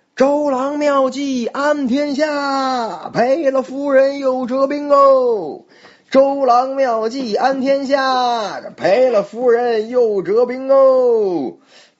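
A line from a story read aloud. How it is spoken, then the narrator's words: Loud shout. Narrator (Chinese): 高喊道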